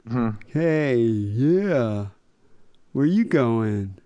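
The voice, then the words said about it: Put-on California accent. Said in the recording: “California accent ... It's kind of like Tommy Chong. They all kind of sound like that.”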